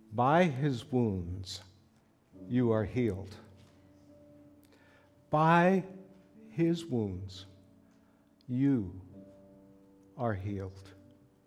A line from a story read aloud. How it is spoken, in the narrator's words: Slowly and in the most profound manner, he said